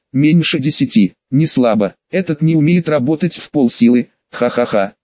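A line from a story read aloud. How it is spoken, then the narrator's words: Laughing. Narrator (Russian): засмеялся Лэм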